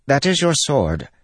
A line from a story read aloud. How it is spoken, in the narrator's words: Pattern said in a perky voice